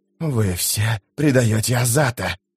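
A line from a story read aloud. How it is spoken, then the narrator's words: Hissing. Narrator (Russian): прошипел Искарал Прыщ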